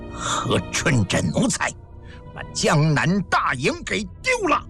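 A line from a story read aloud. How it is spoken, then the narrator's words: Angry. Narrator (Chinese): 咸丰怒声说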